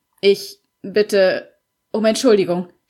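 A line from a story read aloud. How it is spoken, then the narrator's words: Stammering. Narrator (German): stammelte er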